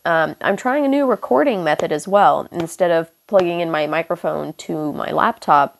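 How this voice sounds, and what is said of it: Hoarse, congested, sniffly voice. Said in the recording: “my voice is really fucked right now because I'm getting over some strep throat and a sinus infection ... you're going to hear me snuff and sniff and my voice sounds a little fucked”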